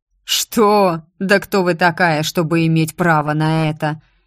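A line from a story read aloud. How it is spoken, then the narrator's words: Mocking drawl. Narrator (Russian): насмешливо протянул барон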